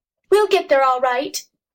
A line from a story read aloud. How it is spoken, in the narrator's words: Jess shouted back